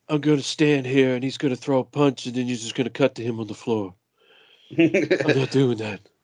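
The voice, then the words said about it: Imitates another person's voice. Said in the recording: “that's about as good of a impression as, like, the people who do the overdubbing”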